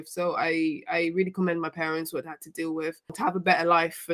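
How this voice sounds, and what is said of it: British accent. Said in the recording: “You got a British accent”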